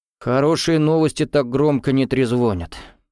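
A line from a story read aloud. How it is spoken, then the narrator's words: Sighing. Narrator (Russian): вздохнул Гуров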